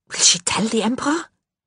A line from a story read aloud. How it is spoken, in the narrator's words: she whispered, feeling a twinge of unwelcome pity for Johann's stark terror